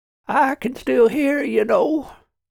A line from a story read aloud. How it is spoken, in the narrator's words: said Trevor in a weak voice